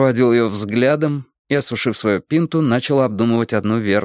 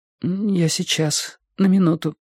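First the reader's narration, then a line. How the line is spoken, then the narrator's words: Forced out. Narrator (Russian): выдавила Робин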